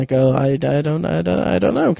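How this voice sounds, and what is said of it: Poor Jeff Goldblum impression. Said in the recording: “terrible Jeff Goldblum impression”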